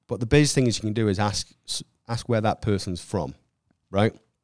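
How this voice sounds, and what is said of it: Speaks with a non-local accent. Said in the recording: “I guess I have a benefit of being from somewhere else. ... I think the accent right? does you some favors.”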